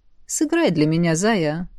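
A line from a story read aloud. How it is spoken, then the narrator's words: Almost tender. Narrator (Russian): сказал почти ласково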